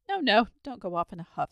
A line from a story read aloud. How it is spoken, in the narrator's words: said the dragon hastily